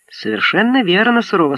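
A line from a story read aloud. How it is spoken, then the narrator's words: Plain. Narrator (Russian): сказал он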